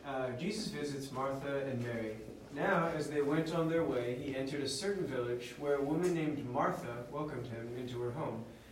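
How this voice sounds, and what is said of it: California accent. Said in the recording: “with a good California accent”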